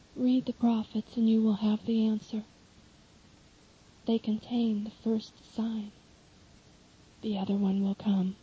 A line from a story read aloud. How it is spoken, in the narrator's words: Jesus kindly replies